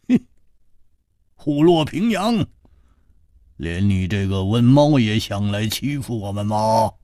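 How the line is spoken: Laughing scold. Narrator (Chinese): 胡铁花笑骂道

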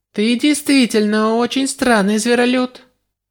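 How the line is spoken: Weak laugh. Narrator (Russian): Она слабо рассмеялась

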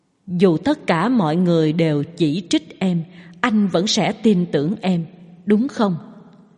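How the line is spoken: Choked, coughing blood. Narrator (Vietnamese): Phạn Già La vốn định mỉm cười, nhưng lại phun ra một ngụm máu

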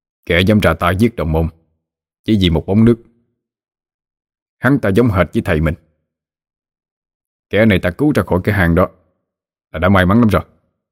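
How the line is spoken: Cold. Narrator (Vietnamese): Chú Sơn lạnh lùng

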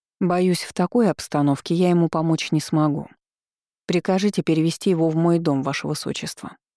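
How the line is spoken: Sorceress's even tone. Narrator (Russian): ровным тоном произнесла магичка

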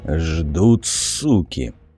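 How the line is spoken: Muttered through teeth. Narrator (Russian): сквозь зубы процедил Тур

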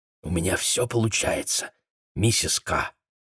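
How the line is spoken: Whisper. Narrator (Russian): Патрик прошептал

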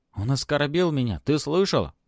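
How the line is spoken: Exclaiming. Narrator (Russian): воскликнул Антон

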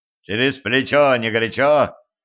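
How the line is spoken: Harsh bark. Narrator (Russian): рявкнул на него Денис

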